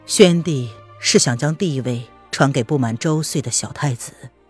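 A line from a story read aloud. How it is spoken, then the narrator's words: Calm, flat. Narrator (Chinese): 风清晨 … 他淡淡的开了口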